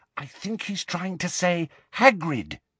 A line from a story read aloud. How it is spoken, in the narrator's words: she whispered